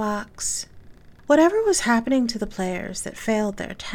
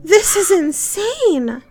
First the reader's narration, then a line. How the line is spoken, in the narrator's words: one of the men cried